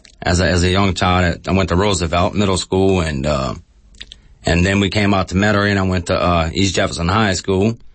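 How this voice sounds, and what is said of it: Louisiana bayou accent. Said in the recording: “most people who would hear you talk think that you might come from down the bayou ... the accent I'm listening to is kind of like Canterbury”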